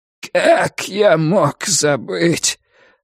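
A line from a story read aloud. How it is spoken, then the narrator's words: Forced through clenched teeth. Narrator (Russian): сквозь зубы выдавил Хуан Шаопин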